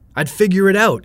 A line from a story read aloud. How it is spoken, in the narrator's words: said, now yelling